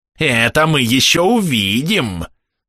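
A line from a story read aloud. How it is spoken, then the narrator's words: Growled. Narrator (Russian): зарычал Негора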